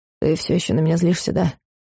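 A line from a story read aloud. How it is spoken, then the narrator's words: Sighing. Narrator (Russian): Вздохнула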